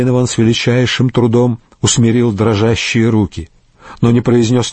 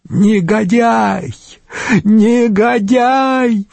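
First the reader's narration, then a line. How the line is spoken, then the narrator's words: Increasingly loud shouting. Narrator (Russian): все громче кричала Гризельда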